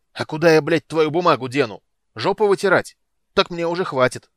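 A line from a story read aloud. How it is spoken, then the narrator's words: Yelling. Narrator (Russian): орал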